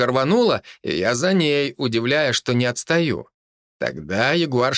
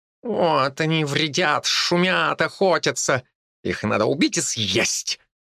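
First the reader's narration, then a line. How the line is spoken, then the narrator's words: Quiet growl, fierce cat. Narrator (Russian): тихо зарычала грозная кошка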